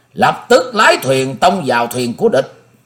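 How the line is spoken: Loud command. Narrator (Vietnamese): Tịch Ứng Chân lớn tiếng ra lệnh

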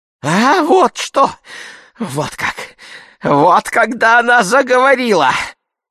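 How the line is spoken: Squeaking with malice. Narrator (Russian): запищал Семен Матвеевич в выступлении злобы

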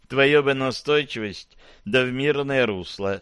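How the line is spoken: Sigh. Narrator (Russian): вздохнула Ипполита

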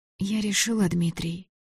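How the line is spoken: Soft. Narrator (Russian): сказала она мягко

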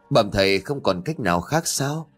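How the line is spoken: Sighing. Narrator (Vietnamese): Ông Nhậm thấy như vậy thì thở dài

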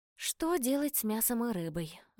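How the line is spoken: Sighing. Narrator (Russian): вздохнула

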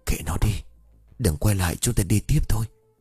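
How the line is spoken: Trembling whisper. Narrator (Vietnamese): Hương lúc này run rẩy thì thầm

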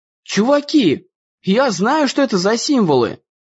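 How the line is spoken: Exclamation. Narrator (Russian): воскликнул Дэн

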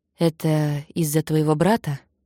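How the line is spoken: Plain. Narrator (Russian): спросил он

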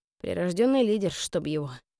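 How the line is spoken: Muttered. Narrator (Russian): пробормотала

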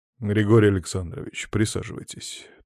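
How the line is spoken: Firm voice. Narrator (Russian): твердым голосом произнес великий князь Андрей Станиславович Астахов

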